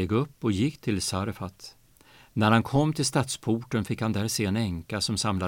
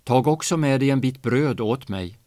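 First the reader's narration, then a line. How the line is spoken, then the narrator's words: Calling after someone. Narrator (Swedish): ropade han efter henne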